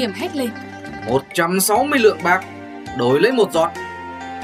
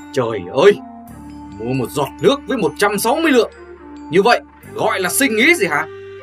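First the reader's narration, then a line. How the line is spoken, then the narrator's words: Furious shout. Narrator (Vietnamese): Người khách tức quá, không còn dài dặt nữa, quát lên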